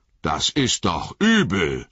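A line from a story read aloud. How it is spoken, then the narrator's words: Calling out. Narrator (German): rief Sam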